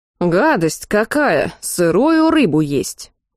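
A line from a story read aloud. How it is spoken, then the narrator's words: Grumbling from another room. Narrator (Russian): проворчал кто-то из комнаты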